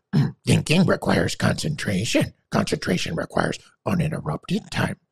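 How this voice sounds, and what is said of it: Yoda character voice impression. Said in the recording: “a Yoda impersonation.”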